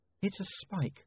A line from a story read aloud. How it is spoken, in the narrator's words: said Saccharissa quietly